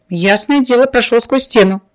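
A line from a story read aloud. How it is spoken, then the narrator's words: Laughing. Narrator (Russian): рассмеялся тот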